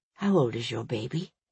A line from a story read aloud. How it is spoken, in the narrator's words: Hero asked quietly